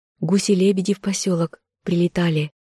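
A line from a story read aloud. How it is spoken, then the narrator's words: Hurried anxious whisper. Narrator (Russian): Любомира зашептала быстро, словно боясь, что не успеет всего рассказать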